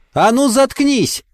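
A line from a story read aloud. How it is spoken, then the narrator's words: Yelling. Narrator (Russian): заорала Мэри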